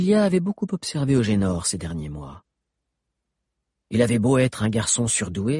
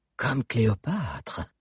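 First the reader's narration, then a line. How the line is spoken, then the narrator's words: Admiring murmur. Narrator (French): murmura Eugénor, admiratif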